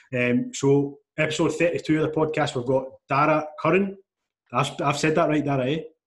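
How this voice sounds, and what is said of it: Strong regional accent. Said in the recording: “that's a strong old accent you boys have”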